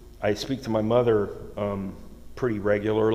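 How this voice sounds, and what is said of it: Usual voice. Nothing is said of it.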